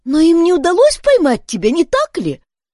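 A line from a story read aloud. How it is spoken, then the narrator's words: Excited question. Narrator (Russian): спросила Бетси взволнованно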